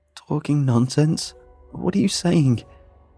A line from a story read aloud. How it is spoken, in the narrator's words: I choked out